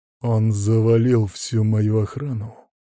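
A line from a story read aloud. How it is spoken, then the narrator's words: Through gritted teeth. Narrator (Russian): процедил кретин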